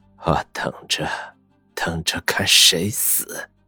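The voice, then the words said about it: Quiet, eerie muttering. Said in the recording (Chinese): “小声诡异的喃喃自语”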